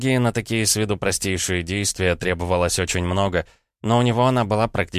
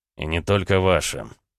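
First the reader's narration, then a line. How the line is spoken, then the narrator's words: Snorting remark. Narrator (Russian): хмыкнул Рома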